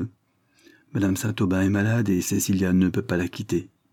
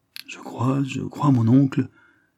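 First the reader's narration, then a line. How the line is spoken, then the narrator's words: Embarrassed stammering. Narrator (French): bégaya Geoffrey Dane en rougissant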